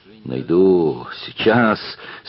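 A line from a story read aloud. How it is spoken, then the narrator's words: Furious, through clenched teeth. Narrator (Russian): стервенея от злости процедил он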